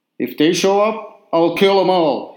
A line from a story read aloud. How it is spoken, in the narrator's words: he bellowed in his best operatic voice, which could be heard blocks away